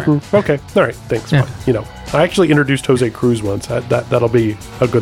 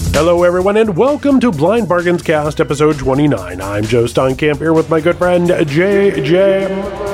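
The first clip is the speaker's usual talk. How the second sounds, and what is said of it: Announcer voice. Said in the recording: “announcer voice”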